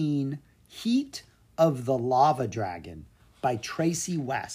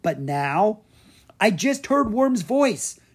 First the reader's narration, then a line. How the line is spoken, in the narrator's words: Drake cried